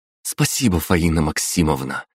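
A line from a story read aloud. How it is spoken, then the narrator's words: Quiet. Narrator (Russian): тихо проговорила Лиза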